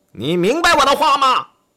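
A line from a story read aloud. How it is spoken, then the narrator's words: Loud shouting. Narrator (Chinese): 他大声喊道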